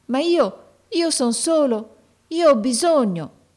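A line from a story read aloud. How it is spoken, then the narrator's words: Boy's pleading exclamation. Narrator (Italian): esclamò il ragazzo con voce di preghiera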